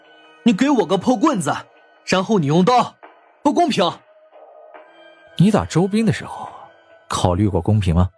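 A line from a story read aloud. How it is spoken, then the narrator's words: Exasperated roar. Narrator (Chinese): 王东无语，吼道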